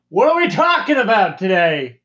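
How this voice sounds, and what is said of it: Yelling, loud voice. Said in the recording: “Why are you yelling?”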